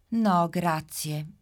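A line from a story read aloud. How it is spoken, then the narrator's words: Sighing. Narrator (Italian): Gigi Orsetto fa un sospiro e dice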